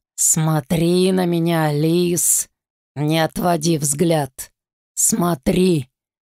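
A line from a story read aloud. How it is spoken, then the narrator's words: Growling. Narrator (Russian): Прорычал он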